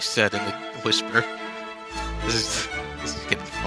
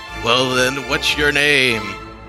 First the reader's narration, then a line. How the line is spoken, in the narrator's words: It asked with a dry-sounding rasp